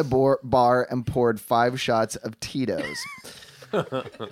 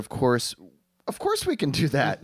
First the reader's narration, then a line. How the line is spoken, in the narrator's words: smiled sweetly and told